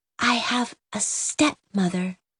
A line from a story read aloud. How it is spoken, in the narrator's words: she whispered